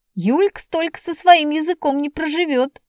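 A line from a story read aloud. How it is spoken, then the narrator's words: Laughing. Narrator (Russian): смеялся Вовчик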